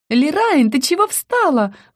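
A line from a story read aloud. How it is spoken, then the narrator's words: Shriek. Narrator (Russian): взвизгнула Рика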